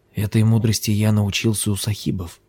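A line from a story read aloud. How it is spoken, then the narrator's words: Whispering. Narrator (Russian): зашептал он Лами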